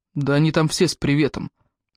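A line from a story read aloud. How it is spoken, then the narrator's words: Gloomy, through teeth. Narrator (Russian): мрачно процедил он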